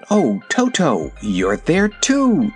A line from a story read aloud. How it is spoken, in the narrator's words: she exclaimed